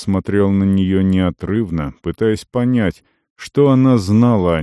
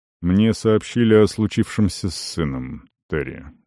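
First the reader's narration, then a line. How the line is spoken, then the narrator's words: Muffled, hollow voice. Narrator (Russian): глухо сказал Арон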